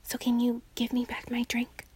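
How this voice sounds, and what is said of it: Whispering. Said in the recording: “What do you want me to whisper? ... Okay, I'm whispering.”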